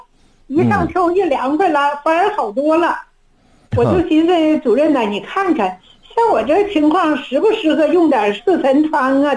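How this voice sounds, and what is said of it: Northern Chinese accent. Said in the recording (Chinese): “听你的口音呢，是北方人。...我是黑龙江的。”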